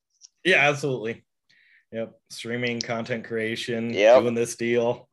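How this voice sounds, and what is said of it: Slightly rough, hoarse voice. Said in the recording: “my voice is going to be a little rough”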